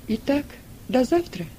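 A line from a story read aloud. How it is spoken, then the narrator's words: Calm reply. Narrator (Russian): спокойно отозвалась Сильва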